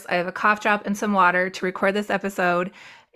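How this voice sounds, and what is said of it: Slightly hoarse voice from cold. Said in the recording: “hear it in my voice, I have a little bit of a cold right now. It's just a little hoarse.”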